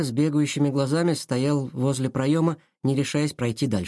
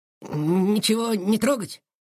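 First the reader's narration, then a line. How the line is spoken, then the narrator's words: Uncertain question. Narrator (Russian): спросил неуверенно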